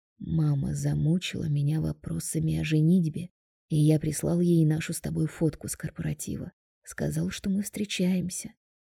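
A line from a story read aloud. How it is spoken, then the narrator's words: Undertone. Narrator (Russian): вполголоса говорит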